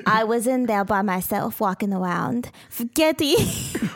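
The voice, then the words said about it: Put-on Russian, almost Transylvanian accent. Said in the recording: “Where's your voice going? ... I was sort of doing a Russian accent. ... Yeah, it almost ... Sounded Transylvanian.”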